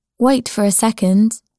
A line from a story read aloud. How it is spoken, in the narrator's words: said